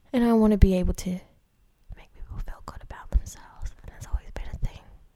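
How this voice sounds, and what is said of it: Whispering. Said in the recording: “I don't know why I'm whispering, but I just feel like that's my emphasis.”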